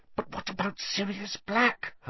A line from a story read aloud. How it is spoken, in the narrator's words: Hermione hissed